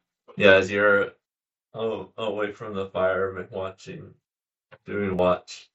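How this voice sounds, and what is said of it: Usual voice. Nothing is said of it.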